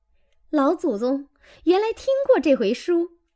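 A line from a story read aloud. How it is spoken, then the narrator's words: Laughing. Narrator (Chinese): 女仙儿笑道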